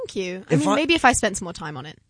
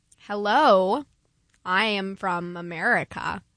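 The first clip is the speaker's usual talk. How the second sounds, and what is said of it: Put-on American accent. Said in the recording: “American accent ... That was very good.”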